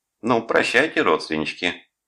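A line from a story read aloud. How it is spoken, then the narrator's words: Laughing snort. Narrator (Russian): И Тереза, засмеявшись, фыркнула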